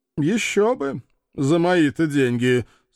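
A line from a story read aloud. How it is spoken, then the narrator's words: Dry, gloomy. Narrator (Russian): сухо похвалил мрачный вампир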